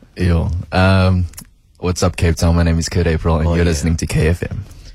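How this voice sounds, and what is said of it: Flirty radio presenter voice. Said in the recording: “radio voice ... It's sounding like you're flirting with all this.”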